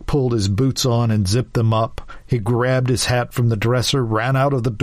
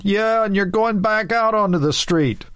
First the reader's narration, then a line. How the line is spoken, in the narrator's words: Someone else yelled